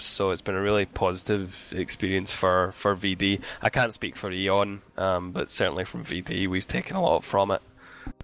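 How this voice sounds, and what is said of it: Strained, fading voice. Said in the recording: “my voice is going, by the way, it's 4:30 in the morning here”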